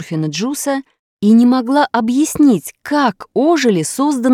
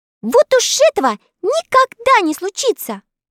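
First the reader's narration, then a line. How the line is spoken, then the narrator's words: Convinced exclamation. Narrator (Russian): убежденно воскликнула Элли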